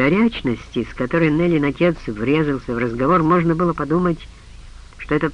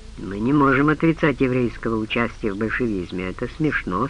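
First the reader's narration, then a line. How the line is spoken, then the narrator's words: Calm. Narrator (Russian): спокойно сказал ему Крамер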